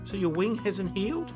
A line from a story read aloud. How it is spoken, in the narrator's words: WE asked